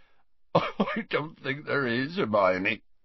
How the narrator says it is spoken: choked Hagrid, attempting to stem the flood of his tears

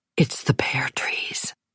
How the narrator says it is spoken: whispered

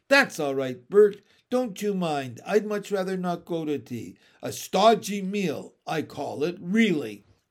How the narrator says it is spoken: turned the sigh into a smile, a good one with both ends turned up, and said

